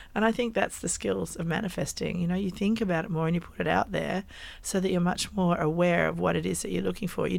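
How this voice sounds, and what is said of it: Croaky voice. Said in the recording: “in my croaky voice ... even though you have a croaky voice”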